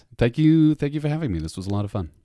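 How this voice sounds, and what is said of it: British accent. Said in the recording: “a new voice to the podcast from Britain, so we get a much better accent”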